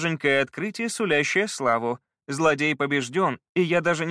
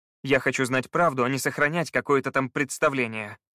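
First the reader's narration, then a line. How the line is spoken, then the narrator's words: Plain. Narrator (Russian): сказал Скай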